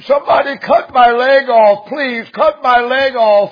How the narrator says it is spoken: the man screamed

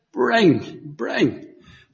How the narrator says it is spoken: very weakly

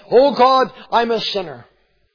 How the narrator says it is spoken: cried out to God

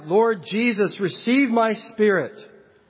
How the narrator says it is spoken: as they were stoning Stephen, he cried out

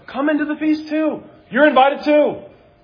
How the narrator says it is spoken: The father pleads with him

